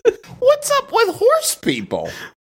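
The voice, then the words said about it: Imitates another person's voice. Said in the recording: “That's actually really good, Jim Gaffigan.”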